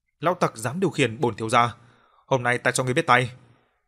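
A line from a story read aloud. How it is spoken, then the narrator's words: Angry. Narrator (Vietnamese): cậu ta giận dữ nói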